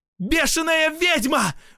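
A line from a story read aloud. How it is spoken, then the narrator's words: Screaming at full force. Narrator (Russian): во всю мощь закричала Катя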